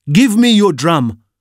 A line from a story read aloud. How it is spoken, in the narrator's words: shouts his angry aunt